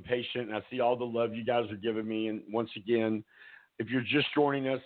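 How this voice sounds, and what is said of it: Strained, failing voice. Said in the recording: “my voice is giving out”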